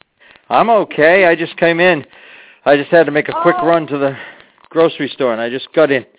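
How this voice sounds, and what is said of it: Breathless, out-of-breath speech. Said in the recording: “That's why I'm out of breath,”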